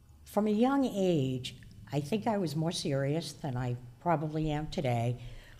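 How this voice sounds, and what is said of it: Boston New England accent. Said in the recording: “I've spent most of my life living in the Boston area, another New Englander. I think my accent proves that.”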